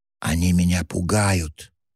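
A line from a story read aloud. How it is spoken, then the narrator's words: Whispered. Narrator (Russian): добавила шепотом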